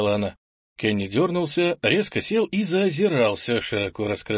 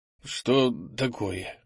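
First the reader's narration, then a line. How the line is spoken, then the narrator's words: Hoarse question. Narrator (Russian): хрипло спросил Кенни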